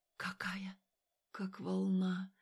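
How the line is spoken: Gasping whisper. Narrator (Russian): Алина резко вдохнула и прошептала

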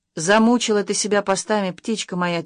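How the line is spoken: Quiet. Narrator (Russian): тихо сказал Максим

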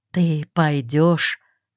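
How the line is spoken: Many whispering questions. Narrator (Russian): многие из нас стали между собой шептаться, спрашивать

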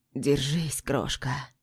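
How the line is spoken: Hoarse. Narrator (Russian): произносит хрипло

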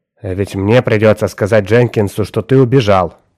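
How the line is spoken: Hard-hearted grumbling. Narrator (Russian): ворчал жестокосердный сыщик

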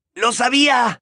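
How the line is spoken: Shouted. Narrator (Spanish): gritó Ron

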